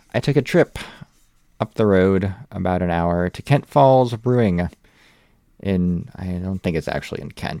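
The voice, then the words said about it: American accent. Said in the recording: “Sheffield Wednesday Opinion with an American accent.”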